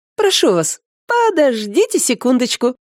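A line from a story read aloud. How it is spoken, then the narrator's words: Very cheerful girl's exclamation. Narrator (Russian): очень весело воскликнула девушка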